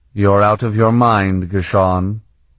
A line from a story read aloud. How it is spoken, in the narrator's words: he declared flatly